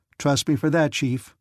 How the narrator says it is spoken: cried Patsy

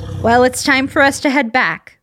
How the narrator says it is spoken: Robin called out

